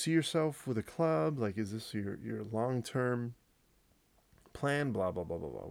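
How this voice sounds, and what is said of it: Usual voice. Nothing is said of it.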